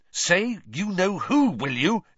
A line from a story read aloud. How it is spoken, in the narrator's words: interjected Ron angrily